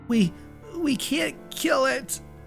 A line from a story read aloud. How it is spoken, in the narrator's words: she whimpered